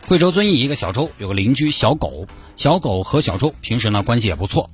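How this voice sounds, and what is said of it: Sichuan dialect speech. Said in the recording (Chinese): “我们直接用四川话。”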